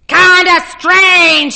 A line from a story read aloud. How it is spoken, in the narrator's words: Arnold Friend cried